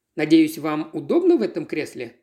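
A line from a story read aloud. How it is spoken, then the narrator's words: Plain. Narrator (Russian): спросил мистер Бродриб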